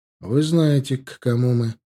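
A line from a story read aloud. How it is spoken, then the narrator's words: Even-toned reply. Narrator (Russian): ровным тоном ответил Милар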